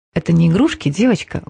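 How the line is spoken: Menacing whisper. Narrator (Russian): угрожающе прошептала Кейла

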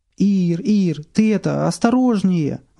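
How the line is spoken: Young man pleading. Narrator (Russian): взмолился парень

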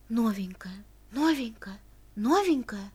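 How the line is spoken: Rustling suppressed girls' whispers. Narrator (Russian): Точно деревья в лесу зашелестели умышленно подавленным шепотом голоса моих будущих одноклассниц

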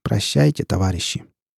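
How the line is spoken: Gloomy. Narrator (Russian): Иван проговорил мрачно

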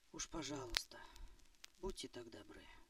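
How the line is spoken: Whisper. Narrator (Russian): прошептала Марта

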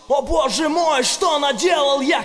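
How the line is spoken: Shout. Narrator (Russian): кричал Миша

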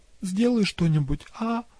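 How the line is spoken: Trembling little voice. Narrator (Russian): попросила Андромеда дрожащим голоском

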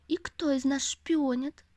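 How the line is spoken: Shout. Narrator (Russian): закричал он

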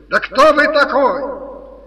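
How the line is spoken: Furious yell. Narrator (Russian): Совершенно свирепев, Никанор Иванович завопил

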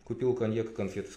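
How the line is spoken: Plain. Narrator (Russian): сказал я

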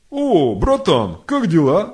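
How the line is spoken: Exclaimed, king. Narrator (Russian): воскликнул царь

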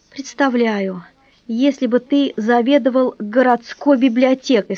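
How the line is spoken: Plain. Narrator (Russian): сказала она

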